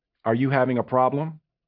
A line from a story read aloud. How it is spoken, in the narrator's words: said evenly